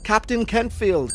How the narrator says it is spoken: cried Mrs

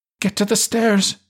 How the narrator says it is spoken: she shrieked

